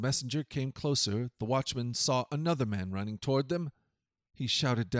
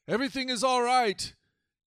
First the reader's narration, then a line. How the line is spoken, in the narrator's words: Amahaz cried out to the king